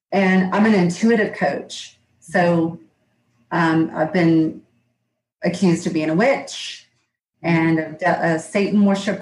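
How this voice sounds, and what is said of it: Southern US Georgia accent. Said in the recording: “I'm in Georgia. You can probably tell from my accent.”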